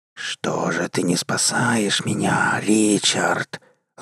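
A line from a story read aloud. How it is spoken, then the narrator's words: Hissing from all sides. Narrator (Russian): зашипело сразу со всех сторон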